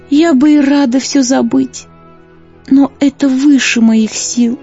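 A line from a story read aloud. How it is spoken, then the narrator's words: Sad sighing woman. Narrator (Russian): печально вздохнув, сказала красавица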